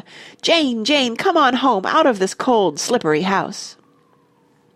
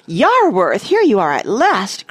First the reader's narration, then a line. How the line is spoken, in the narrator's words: cried the grey lady